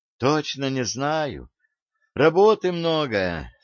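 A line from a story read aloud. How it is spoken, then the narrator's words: Rueful sigh. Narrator (Russian): сокрушенно вздохнул Гасан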